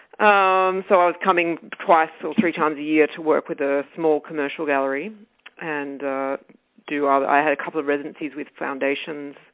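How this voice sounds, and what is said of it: Australian accent. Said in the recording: “I was living in Australia. You can tell by my accent where I'm from.”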